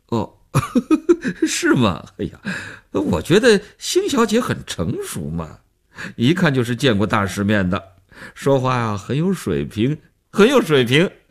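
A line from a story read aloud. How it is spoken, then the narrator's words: Smiling, flattering. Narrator (Chinese): 那男人笑着做分析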